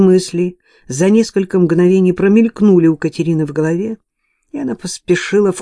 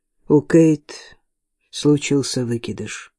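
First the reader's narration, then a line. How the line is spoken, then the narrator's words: Sad. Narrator (Russian): печально сказала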